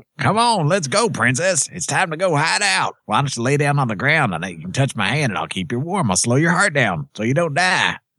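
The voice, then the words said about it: Redneck robot character voice. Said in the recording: “A.K.A. the Redneck Robot ... That was actually pretty good. ... That was a very good impression. ... That was the best impression you've ever done.”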